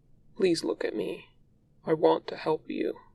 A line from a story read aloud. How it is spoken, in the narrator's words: says, softly